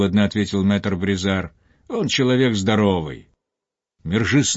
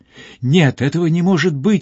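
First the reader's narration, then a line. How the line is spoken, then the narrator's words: Sobbing exclamation. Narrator (Russian): воскликнул, рыдая Мержи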